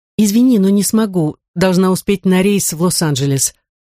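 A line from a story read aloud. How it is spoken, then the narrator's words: Plain. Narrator (Russian): сказала она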